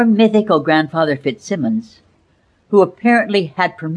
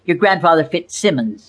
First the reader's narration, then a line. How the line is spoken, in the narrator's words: snapped my mother